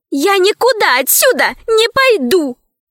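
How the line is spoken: Sudden scream. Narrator (Russian): вдруг закричала Лара

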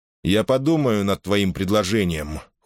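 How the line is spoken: Cold reply. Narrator (Russian): холодно отозвался голос Делла

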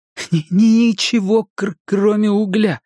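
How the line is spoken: Nervous laugh. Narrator (Russian): Билл нервно рассмеялся

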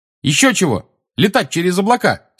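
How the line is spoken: Angry shout. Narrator (Russian): сердито крикнула ему Тонкс

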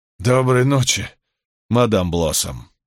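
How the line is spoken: Hoarse rasp. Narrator (Russian): прохрипел он

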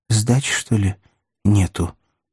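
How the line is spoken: Timid question, man. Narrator (Russian): робко спросил бухгалтер

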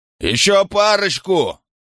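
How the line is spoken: Yelled. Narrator (Russian): заорал он

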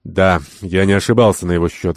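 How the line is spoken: Sighing. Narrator (Russian): вздохнул Ахмед

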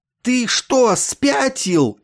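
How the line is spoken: Frightened hiss. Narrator (Russian): испуганно шипел он

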